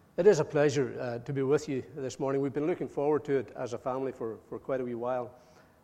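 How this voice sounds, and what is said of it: Speaker's own distinctive regional accent. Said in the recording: “a man with my accent and a black mask uh, could send you home with uh, altogether the wrong impression”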